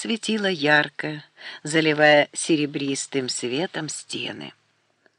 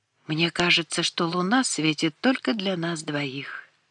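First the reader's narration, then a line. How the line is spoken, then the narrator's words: Whispered. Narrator (Russian): прошептала Изабель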